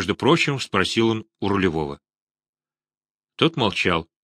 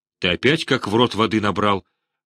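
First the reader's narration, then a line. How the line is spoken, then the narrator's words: Rough question. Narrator (Russian): грубо спрашивает Невельской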